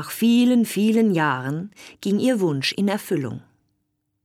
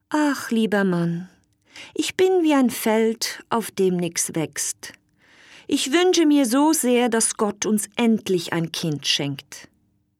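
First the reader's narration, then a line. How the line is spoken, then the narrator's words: Sad queen speaking. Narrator (German): sehr traurig und die Königin sagte jeden Abend zu ihrem Mann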